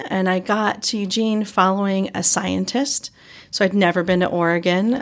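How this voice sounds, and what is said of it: Southern US accent. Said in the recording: “drawl here from Georgia ... I have a Southern accent.”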